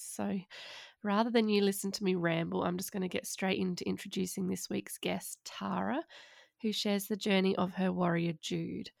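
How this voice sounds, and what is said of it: Voice sounds sick. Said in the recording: “my family got COVID for Easter, which you can probably hear by my voice.”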